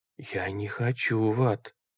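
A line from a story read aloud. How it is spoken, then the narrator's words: Frightened whisper. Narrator (Russian): прошептал Джереми, отшатываясь от края дыры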